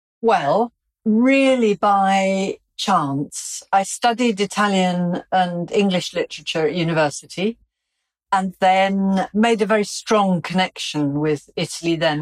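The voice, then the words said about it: English Welsh accent. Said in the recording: “you have a beautiful English Welsh accent.”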